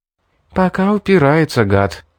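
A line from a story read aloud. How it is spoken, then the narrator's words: Sighing again. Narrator (Russian): вновь вздохнула Мэри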